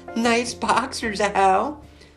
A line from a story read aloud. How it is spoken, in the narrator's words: laughed Amy